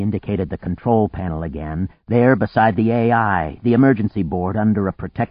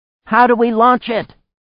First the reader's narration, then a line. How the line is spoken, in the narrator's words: Anne cried